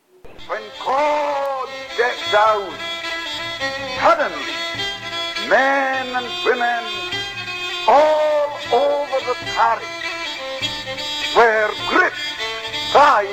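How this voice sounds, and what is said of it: Strong Hebridean accent, crackly old recording. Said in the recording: “He talks with a strong Hebridean accent, and it's definitely from the 1950s ... it's old, it's crackly”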